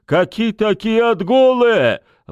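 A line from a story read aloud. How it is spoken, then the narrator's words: Yelling. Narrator (Russian): вопил Сашок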